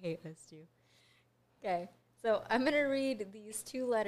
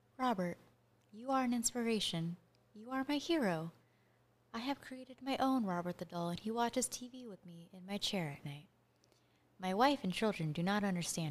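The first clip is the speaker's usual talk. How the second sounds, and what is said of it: Reads aloud in a dramatic voice. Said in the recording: “I'm going to try to read this in a really dramatic voice.”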